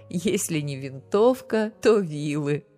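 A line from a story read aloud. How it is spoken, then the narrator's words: Mother laughing while speaking. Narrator (Russian): Мама сквозь смех добавила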